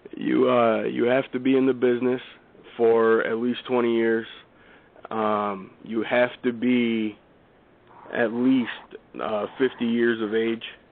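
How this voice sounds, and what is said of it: Hoarse, worn-out voice. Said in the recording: “I'm just getting over a cold, so my voice is kind of shot.”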